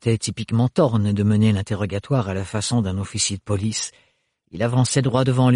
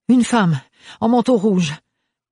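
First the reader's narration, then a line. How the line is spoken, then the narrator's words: Breathless panting. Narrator (French): haleta Ophélie à bout de souffle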